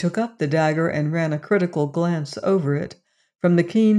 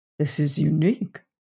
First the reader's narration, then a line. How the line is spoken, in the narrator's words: he muttered